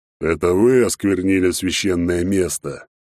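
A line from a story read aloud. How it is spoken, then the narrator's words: Sudden growling dragon voice. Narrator (Russian): Вдруг то ли сказал, то ли прорычал черный дракон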